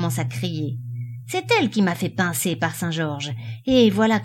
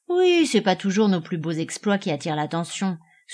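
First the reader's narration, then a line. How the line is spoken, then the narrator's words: Sighing woman. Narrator (French): soupira la marchande de fromenté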